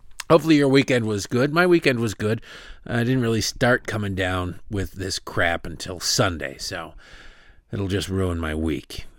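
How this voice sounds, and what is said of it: Weird sore-throat voice. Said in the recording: “I've got less snot and more of a sore throat. So if my voice sounds weird, that is why.”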